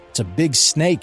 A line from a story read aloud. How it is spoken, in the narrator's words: answered Jack